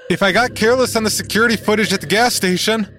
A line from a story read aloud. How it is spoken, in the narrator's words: he shouts from the bathroom